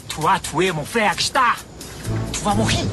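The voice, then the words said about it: Strong foreign accent. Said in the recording (French): “C'est mon accent qui vous fait rire?”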